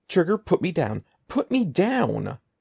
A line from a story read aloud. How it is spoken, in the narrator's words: Evan choked out